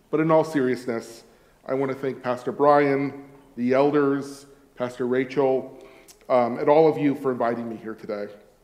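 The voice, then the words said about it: American Californian accent. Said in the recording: “an American and indeed a Californian accent”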